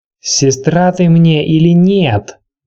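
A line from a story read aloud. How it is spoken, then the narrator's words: Shouting. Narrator (Russian): закричала она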